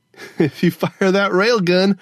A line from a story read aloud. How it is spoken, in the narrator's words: Gogo Fernanda laughed